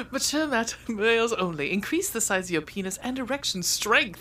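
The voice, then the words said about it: Put-on British accent. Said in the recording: “I can do this in the British accent if you like.”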